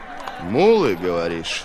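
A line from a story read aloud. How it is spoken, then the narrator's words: Menacing question. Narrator (Russian): грозно переспросил Три Дуба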